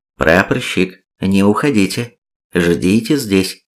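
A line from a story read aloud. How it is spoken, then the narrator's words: Quiet older nurse. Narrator (Russian): медсестра из старших, внимательно посмотрев на меня, подходит и негромко говорит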